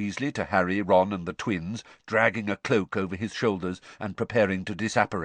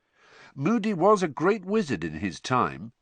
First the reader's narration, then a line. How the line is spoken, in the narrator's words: said Bill